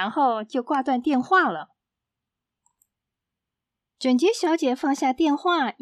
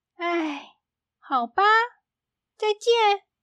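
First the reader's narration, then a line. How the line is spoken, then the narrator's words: Sighing. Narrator (Chinese): 整洁小姐叹一口气说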